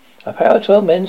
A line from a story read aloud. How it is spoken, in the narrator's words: said the woman